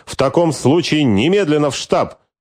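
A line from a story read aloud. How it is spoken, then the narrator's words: Barked. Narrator (Russian): рявкнул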